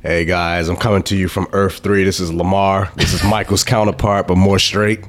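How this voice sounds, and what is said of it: Sick, congested voice. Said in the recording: “because you sound sick as hell? Because you are sick as hell this week? ... I'm sick, so I'm going to apologize in advance because I'm going to be sniffling, coughing, hacking.”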